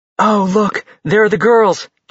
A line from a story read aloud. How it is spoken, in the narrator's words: Josie exclaimed